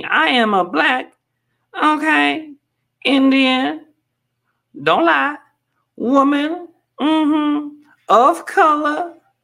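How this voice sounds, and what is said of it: Impression of Kamala Harris. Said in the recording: “that was my impression of Kamala Harris”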